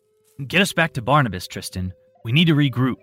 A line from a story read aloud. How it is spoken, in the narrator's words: Tim stated in an authoritative tone